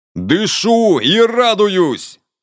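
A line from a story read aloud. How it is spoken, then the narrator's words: Delighted exclamation. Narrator (Russian): с восторгом воскликнуло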